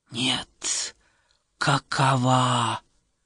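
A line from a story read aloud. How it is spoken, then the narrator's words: Hiss. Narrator (Russian): прошипела она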